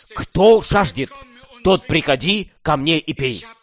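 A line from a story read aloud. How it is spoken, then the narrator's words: Loud calling. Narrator (Russian): наш Господь призывает громким голосом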